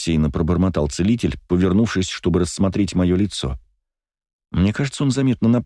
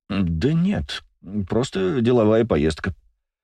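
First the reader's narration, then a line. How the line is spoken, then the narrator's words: Mumbled evasively. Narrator (Russian): промямлил мужчина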